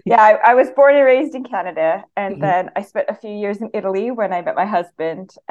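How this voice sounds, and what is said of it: Canadian accent. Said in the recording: “my accent is not British. It's Canadian.”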